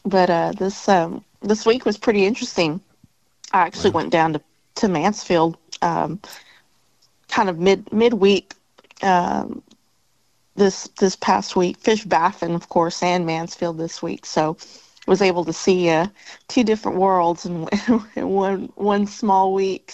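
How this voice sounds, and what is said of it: Tired-sounding voice. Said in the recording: “you can probably hear in my voice, I'm a little tired this morning”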